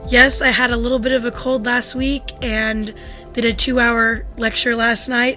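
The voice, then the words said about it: Hoarse, strained, fried voice. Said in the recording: “something's wrong with your voice ... my voice is a little bit fried ... It's worth the strain”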